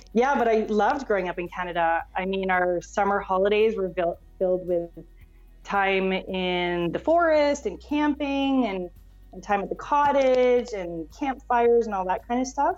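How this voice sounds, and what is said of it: Slight Canadian accent. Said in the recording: “I kind of hear the accent a little ... My accent sounds very Canadian”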